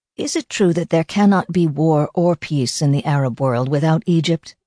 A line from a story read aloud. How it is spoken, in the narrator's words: I asked Sadat